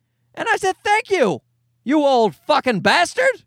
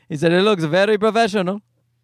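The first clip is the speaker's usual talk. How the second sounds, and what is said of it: Put-on unspecified foreign accent. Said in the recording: “I'm doing a random accent.”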